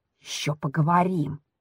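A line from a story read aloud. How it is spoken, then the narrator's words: Whisper through clenched teeth. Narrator (Russian): шепчет мне сквозь зубы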